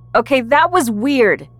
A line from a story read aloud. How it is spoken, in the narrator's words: I shouted at Mariana over the music